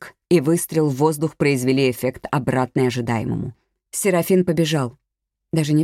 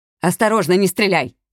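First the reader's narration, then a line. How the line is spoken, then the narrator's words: Shouting. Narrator (Russian): крикнул ей Ордуньо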